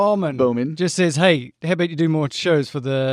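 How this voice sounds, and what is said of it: Usual voice. Nothing is said of it.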